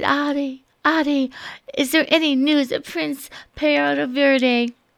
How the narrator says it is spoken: The wind looked sad and sighed

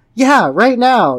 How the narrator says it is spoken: yelled Amy

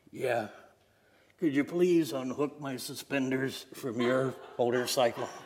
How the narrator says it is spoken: the old man choked and coughed, and he replied

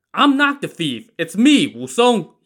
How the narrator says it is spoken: cried out

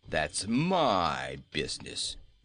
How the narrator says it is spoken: returned Bilbil in a surly tone

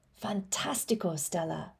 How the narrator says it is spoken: she whispers

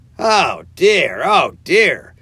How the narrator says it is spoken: cried the rat in despair at his obtuseness

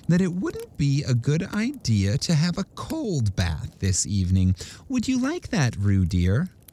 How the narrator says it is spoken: said Kanga in a thoughtful voice

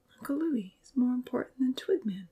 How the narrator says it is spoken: he whispered sadly

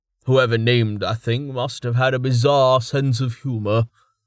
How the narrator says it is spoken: he chuckled

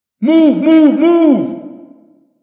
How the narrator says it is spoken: Jake screamed

